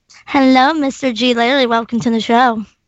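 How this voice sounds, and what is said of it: Put-on sultry sexy voice. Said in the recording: “what a sexy voice. ... You should hear the real voice. ... you have to be Ava Gardner”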